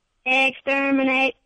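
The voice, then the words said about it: Robotic Dalek voice. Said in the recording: “Can you do an impression of a Dalek? ... That's pretty good. I gotta say. That's pretty good.”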